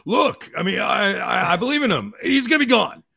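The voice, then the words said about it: Good impression of another person's voice. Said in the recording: “that's a good Nando impression.”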